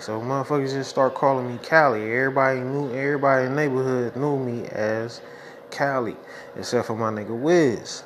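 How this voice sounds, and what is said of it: East Oakland California accent. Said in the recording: “you got an accent. ... I'm from East Oakland, California”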